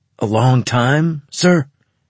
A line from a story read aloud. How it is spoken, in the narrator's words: Carlos blurted out of turn